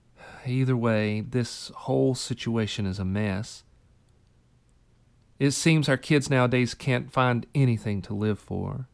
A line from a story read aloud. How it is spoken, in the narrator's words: With a heavy sigh, she said